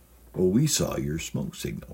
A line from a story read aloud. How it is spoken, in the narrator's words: they replied